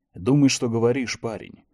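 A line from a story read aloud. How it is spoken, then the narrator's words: Grumbling. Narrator (Russian): проворчал Чет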